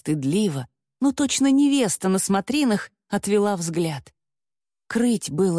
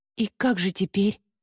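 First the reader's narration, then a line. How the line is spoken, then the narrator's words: Quiet question. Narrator (Russian): тихо спросила я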